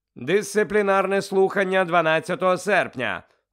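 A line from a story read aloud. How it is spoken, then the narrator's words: Loud. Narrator (Ukrainian): голосно почав Фадж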